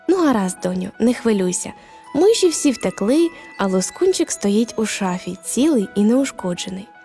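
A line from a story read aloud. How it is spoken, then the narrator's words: Very gentle mother. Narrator (Ukrainian): та дуже лагідно сказала Марі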